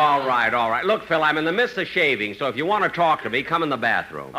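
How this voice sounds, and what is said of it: Usual voice. Nothing is said of it.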